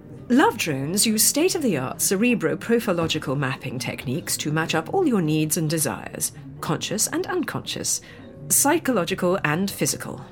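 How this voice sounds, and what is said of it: Posh accent. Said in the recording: “a posh accent”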